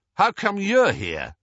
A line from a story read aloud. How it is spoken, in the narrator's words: he said, much too loudly